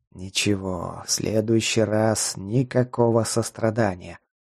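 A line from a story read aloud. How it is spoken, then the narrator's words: Ominous muttered whisper. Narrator (Russian): зловещим шепотом бубнил Марк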